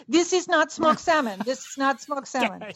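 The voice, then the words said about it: Put-on Natasha-style accent. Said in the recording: “I like your Natasha accent.”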